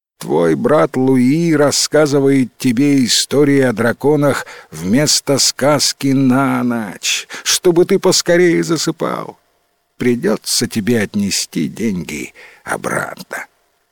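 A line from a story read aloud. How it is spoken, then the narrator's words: Sad, smiling. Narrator (Russian): печально улыбнулся отец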